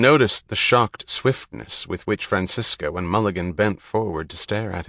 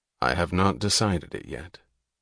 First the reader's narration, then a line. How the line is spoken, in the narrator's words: Galt answered evenly